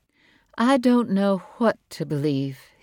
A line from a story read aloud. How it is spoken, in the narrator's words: said slowly